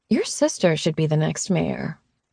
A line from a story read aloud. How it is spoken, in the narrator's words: Griffin chuckled